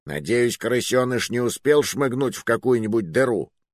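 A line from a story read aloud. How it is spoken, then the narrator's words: Grumbling. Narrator (Russian): проворчал Муруа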